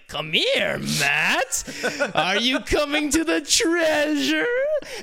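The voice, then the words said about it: Sinister evil villain voice. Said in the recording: “Michael Kramer's plays the evil villain's voice ... that's an evil voice ... he's got a weird voice”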